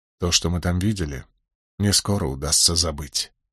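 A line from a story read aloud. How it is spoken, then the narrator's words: Plain answer. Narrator (Russian): ответил я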